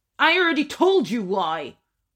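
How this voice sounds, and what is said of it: Raised, shouting voice. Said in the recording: “raise my voice”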